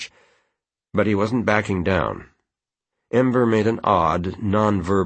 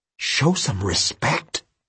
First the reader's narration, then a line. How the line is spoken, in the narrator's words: Penny muttered